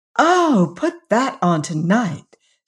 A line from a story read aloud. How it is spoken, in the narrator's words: said Emily eagerly